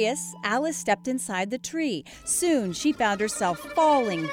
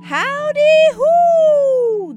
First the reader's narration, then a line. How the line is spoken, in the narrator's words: the voice hollered